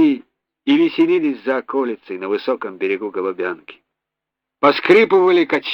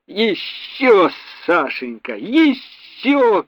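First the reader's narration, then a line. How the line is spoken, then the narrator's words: Mother shouting. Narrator (Russian): кричала мама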